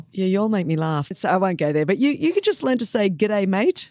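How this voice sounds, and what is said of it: Australian accent. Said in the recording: “this awesome Australian accent”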